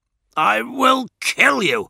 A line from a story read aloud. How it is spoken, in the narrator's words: snapped Eidolon